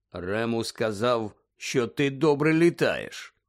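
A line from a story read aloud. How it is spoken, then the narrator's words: Low voice. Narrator (Ukrainian): низьким голосом промовив Кінгслі Шеклбот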